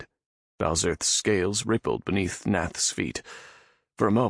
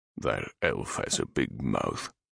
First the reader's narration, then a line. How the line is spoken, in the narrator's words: Balzerth grumbled